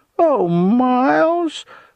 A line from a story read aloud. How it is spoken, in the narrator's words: Wilma said then in a simpering voice, and the venom in it made me shiver